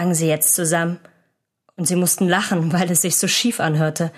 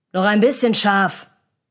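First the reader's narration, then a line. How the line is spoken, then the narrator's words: Calling out. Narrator (German): rief Wolf und er sang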